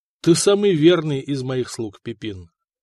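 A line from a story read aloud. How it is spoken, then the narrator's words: Plain. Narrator (Russian): ответил Дагоберт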